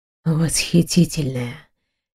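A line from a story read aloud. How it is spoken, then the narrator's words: Barely audible murmur. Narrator (Russian): едва слышно проговорил он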